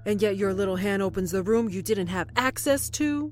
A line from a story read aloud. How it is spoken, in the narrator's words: He roared, abandoning all silence and discretion now